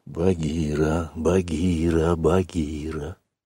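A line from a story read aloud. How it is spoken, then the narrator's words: Child's insistent whisper. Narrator (Russian): шептал мальчик настойчиво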